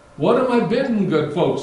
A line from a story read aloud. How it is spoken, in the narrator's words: cried